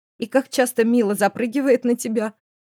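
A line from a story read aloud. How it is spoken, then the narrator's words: Question after laughing. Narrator (Russian): Отсмеявшись, спросила Злата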